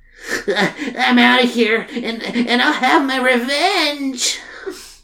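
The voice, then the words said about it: Sad, pathetic nerdy voice. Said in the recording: “in a sad, pathetic nerd voice”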